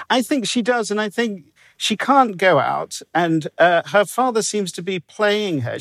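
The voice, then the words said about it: English accent. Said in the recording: “Now I'm from England, as you can tell ... having an English accent”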